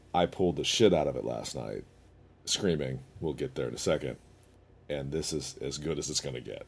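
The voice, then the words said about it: Hoarse, deep strained voice. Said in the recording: “I like when I lose my voice because the first couple days I sound like Vader.”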